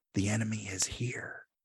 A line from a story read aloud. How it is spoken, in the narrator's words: Stamets whispers